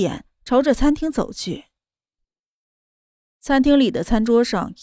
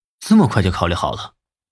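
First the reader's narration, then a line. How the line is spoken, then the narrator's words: Thoughtful. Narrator (Chinese): 莫云熙想了想后说道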